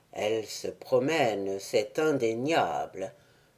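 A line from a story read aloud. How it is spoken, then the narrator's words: Troubled murmur. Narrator (French): murmura Pérole sans essayer de dissimuler son trouble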